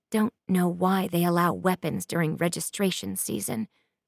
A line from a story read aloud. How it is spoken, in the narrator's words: Linnell mutters